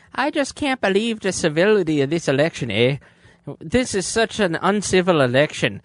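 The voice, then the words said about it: Sarah Palin impression, Irish-sounding accent. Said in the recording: “your Canadian Alaskan accent sound like a little Irishman”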